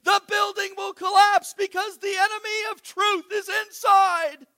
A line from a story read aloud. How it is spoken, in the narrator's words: shouting